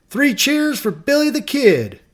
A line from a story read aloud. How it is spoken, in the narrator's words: he waved his hat over his head, yelling